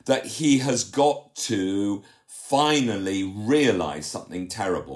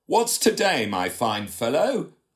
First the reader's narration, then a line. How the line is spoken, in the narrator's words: said Scrooge